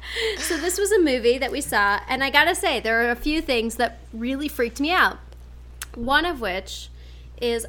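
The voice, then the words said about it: Loud speaking voice. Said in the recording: “I need to lower my voice. I'm really loud right now.”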